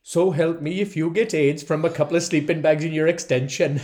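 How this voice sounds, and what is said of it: Put-on Welsh accent. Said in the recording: “I have been practicing that line in the Welsh accent.”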